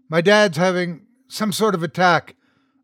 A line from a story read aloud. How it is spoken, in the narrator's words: I blurted out